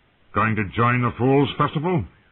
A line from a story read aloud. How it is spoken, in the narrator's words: Sir Brendan snapped